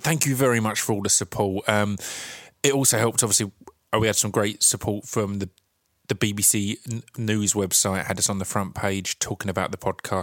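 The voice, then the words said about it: Essex accent, like a weaker Cockney. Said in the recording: “that's just an Essex accent. An Essex accent just sounds like kind of a slightly weaker Cockney accent or a slightly, yeah, I don't know, a poor attempt at a Cockney accent”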